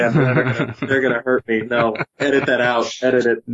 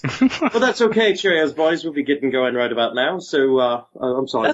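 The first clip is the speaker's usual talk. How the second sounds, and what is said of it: Put-on British accent. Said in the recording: “we couldn't get ourselves a British accent ... That's not bad, man.”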